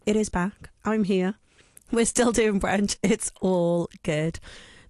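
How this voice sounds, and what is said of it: Husky, partly lost voice. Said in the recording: “I'm just sounding a little bit Mariella Fostrup today... Lost my voice a little bit over the weekend.”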